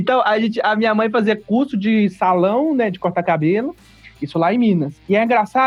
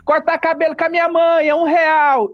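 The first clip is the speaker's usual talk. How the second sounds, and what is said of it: Shouting like a street vendor. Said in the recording (Portuguese): “As pessoas ficam gritando, né? ... eu ficava imitando”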